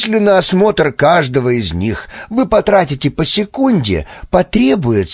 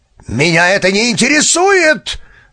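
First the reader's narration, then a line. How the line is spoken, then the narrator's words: Barked, flustered. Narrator (Russian): рявкнул Грасут, боясь запутаться в непривычных для его мышления доводах пришельца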